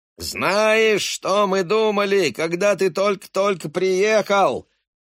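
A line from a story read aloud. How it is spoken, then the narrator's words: Yelling over music. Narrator (Russian): вопит Бобби Келу, перекрикивая музыку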